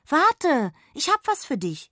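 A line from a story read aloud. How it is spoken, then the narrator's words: Call. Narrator (German): rief sie erneut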